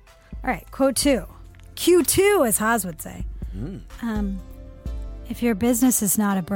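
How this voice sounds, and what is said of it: Usual voice. Nothing is said of it.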